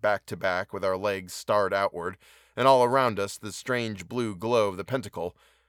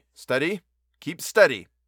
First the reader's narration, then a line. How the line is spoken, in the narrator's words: I shouted